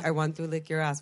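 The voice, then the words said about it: Poor put-on German accent. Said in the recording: “that's a terrible German accent”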